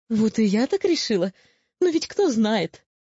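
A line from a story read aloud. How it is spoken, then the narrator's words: Remark with a giggle. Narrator (Russian): заметила Сигнильда и на всякий случай хихикнула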